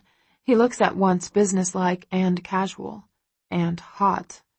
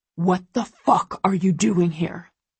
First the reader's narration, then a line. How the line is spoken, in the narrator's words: He growls at her